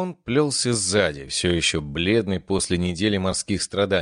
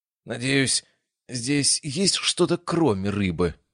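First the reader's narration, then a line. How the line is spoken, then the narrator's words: Groaning. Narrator (Russian): простонал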